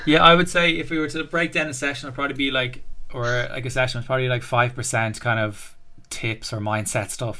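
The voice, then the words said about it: Southside accent. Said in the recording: “taking the piss out of me about having my Southside accent”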